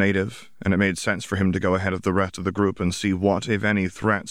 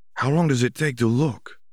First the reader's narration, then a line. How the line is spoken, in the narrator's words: Ruiz asked nervously when Shavdar had been gone for almost 10 minutes